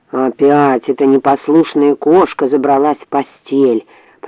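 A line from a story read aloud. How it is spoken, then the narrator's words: Grumbled. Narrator (Russian): проворчал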